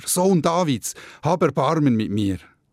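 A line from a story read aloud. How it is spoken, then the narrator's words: Shouting even louder. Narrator (German): Bartimäus aber schrie noch lauter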